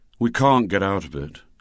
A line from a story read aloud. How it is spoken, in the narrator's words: said Douglas, with a sigh